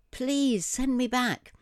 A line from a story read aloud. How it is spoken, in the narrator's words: pleaded so energetically